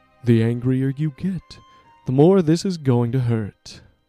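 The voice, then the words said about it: Put-on character voice. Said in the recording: “my terrible impression.”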